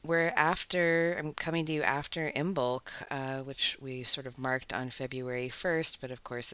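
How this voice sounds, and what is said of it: Voice affected by a cold. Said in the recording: “I'm getting over a little cold, which you might hear in my voice.”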